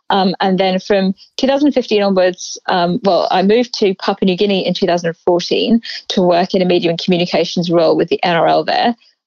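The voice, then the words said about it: English accent. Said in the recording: “as you can tell from my accent”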